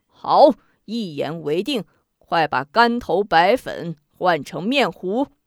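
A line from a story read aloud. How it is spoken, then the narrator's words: Laughing. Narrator (Chinese): 乾隆笑着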